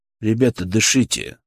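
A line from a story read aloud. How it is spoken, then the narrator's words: Calm, level voice. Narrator (Russian): сказал я спокойно, не повышая голоса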